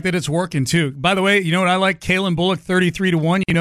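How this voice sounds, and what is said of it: Usual voice. Nothing is said of it.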